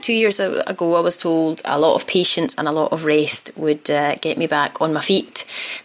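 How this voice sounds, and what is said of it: Strong Scottish accent. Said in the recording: “my accent has gone spectacularly Scottish. I don't actually speak like this in real life ... I revert to my old uh, my old accent.”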